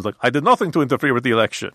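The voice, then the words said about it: Count Dracula-style vampire accent. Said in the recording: “my impression of Putin is exactly the same as my impression of Count Dracula. ... Or the Count from Sesame Street.”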